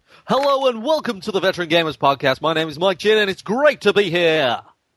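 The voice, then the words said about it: Put-on radio announcer voice. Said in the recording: “This is my radio voice”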